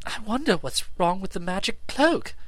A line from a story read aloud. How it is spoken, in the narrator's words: gasped